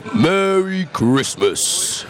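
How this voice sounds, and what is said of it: Husky Santa Claus voice. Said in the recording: “Santa impression ... my voice is a little husky today”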